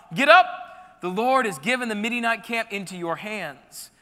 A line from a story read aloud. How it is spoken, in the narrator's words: called out